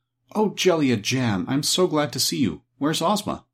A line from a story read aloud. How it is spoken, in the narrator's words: Dorothy ran up to her with evident pleasure and exclaimed